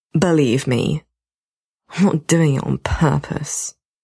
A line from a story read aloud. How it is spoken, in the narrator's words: Matt mutters darkly